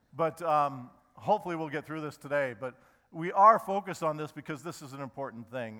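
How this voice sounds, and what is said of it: Voice strained from a cold. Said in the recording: “my voice is not good. I'm fighting off a cold right now.”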